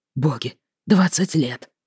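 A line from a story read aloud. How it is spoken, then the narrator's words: Father whispering. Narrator (Russian): прошептал отец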